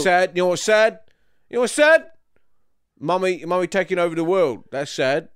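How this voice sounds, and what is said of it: Put-on London accent. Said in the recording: “So I slipped into a bit of London there. ... I think you're putting one on.”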